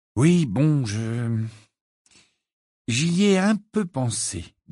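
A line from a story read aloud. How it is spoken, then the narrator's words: Slow speech. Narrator (French): dit-il lentement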